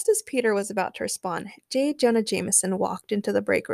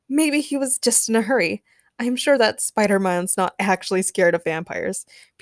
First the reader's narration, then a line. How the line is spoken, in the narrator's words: Peter laughed nervously